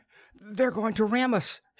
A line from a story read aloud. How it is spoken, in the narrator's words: she cried